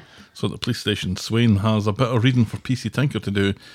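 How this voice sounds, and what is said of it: Usual voice. Nothing is said of it.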